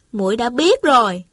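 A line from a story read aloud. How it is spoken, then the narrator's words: Smiling. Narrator (Vietnamese): Thanh Thanh mỉm cười nói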